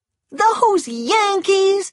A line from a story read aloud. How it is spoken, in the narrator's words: she cried